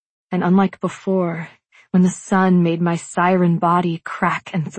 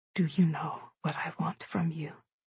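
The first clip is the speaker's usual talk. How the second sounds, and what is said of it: Whispered line. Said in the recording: “I whisper”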